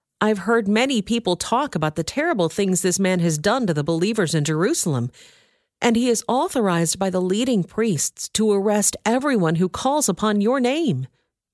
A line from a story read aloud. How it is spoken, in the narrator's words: exclaimed Ananias